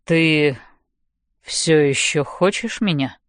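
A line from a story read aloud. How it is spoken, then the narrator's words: Uncertain question. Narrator (Russian): неуверенно спрашивает Хардин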